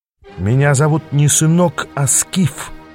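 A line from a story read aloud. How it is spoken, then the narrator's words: Hissed. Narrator (Russian): прошипел я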